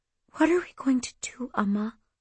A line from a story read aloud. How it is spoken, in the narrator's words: I whispered